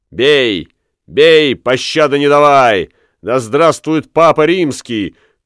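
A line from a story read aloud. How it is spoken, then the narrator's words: Shouted in Spanish. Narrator (Russian): крикнул он по-испански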